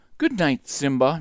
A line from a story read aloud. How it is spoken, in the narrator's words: Nala purred